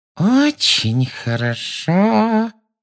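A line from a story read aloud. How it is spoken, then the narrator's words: Menacing saccharine voice. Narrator (Russian): сказала она своим самым угрожающим приторным голоском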